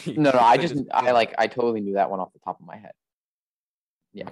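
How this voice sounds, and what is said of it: Sarcastic tone. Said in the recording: “you're being sarcastic. ... You are. Okay, yeah, you are being sarcastic.”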